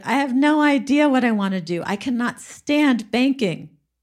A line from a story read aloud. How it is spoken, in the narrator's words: she was whining to her brother and she said